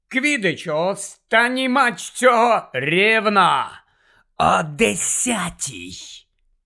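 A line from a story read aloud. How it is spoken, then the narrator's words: Hissed. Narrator (Ukrainian): Прошипів Снейп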